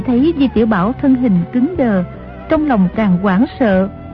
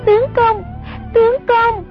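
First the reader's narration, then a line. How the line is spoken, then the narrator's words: Terrified cry. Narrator (Vietnamese): Sông Nhi hoảng sợ hồn bất phụ thể, kêu lên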